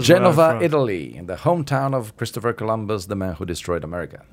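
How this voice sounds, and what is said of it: Slight foreign accent. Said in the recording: “He's got a little bit of an accent. ... A little bit.”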